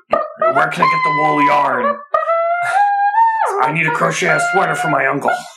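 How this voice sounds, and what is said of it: Deliberately bad imitation of another's voice. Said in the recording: “This is a seriously bad Harrison Ford impression.”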